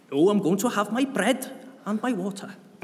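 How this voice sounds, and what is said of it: Poor put-on southern Welsh accent. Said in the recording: “that was my attempt to a southern Welsh accent. It was rubbish”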